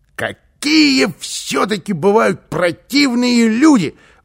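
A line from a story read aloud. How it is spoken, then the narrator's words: Exclaimed. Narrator (Russian): воскликнул он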